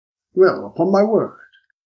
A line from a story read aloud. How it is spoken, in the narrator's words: said the superintendent